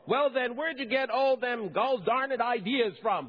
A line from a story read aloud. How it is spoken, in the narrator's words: the man shouted all the more